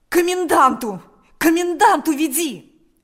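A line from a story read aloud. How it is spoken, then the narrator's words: Desperate shout. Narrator (Russian): закричал Степан отчаянным голосом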